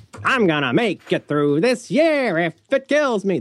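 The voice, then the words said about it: Poor sung imitation of another singer. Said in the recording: “my poor impersonation”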